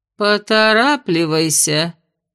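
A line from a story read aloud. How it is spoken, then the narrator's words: Displeased grumbling from above. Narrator (Russian): недовольно проворчали наверху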